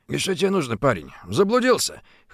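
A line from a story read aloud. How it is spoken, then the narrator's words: Hoarse voice. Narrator (Russian): хриплым голосом проговорил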